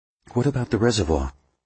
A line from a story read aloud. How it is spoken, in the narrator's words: she asked Pendergast in a quiet voice